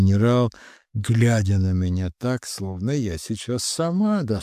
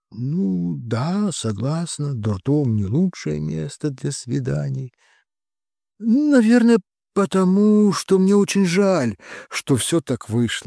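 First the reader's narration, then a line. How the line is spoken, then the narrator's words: Sighing. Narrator (Russian): вздохнула я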